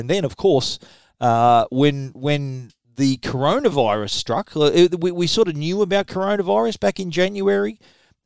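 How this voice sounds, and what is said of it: Australian accent. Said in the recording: “people at the show would hear my accent and think, oh, how are you guys doing in Australia”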